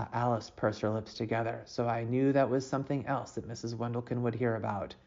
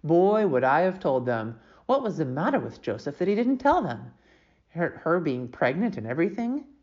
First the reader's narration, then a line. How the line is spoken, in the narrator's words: she grumbled